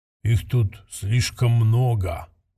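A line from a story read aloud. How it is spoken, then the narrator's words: Muffled low mutter. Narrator (Russian): глухо пробормотал один из телохранителей Куула, тихо, чтобы не услышали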